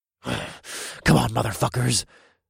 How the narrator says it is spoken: I whispered

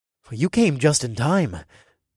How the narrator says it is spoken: I said in an awed tone

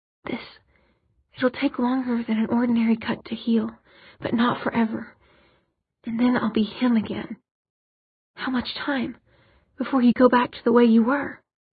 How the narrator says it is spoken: Jace's voice was barely a whisper

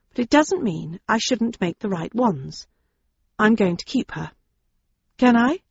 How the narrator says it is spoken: I said quietly

